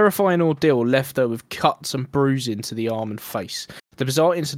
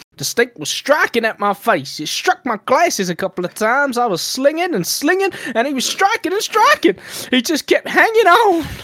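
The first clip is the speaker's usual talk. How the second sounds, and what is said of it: Put-on accent quoting a woman. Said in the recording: “should I do the accent? Should I give it a go? ... Very good, though”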